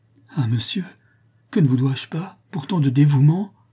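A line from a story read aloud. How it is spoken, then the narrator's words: Exclaiming. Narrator (French): s'écria Germain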